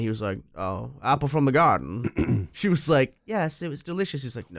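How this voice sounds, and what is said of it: Imitates a British-accented character. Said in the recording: “I wish I could do a good British accent”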